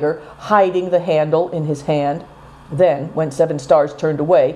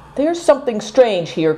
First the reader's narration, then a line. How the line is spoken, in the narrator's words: cried Seven Stars